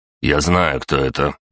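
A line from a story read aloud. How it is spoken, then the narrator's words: Rude interruption. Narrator (Russian): грубо перебил Виктор Викторович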